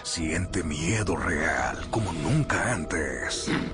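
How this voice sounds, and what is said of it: Monster voice. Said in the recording (Spanish): “esa voz de monstruo”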